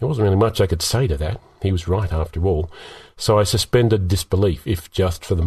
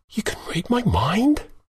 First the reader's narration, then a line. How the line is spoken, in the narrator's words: whispered